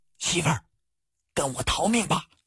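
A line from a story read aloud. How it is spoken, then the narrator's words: Low voice. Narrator (Chinese): 他低声说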